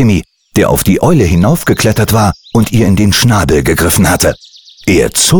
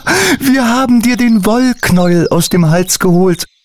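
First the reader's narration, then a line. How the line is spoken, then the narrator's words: Laughing explanation. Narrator (German): erklärte Mutter Natur lachend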